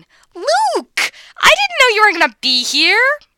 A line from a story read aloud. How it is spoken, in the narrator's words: Caitlin finds him later, gleefully shrieking